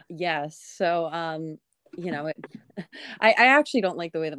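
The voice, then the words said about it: Laid-back stoner-like voice. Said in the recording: “you have a golden radio voice ... I have like kind of like a stoner voice”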